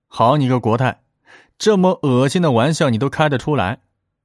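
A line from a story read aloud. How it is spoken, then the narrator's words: Laughing. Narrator (Chinese): 和珅也笑着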